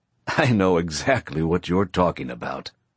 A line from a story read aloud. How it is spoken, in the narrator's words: Alan says through his laughter